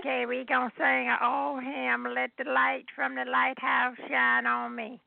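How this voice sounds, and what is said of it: Slightly hoarse elderly voice. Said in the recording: “Still a little hoarse”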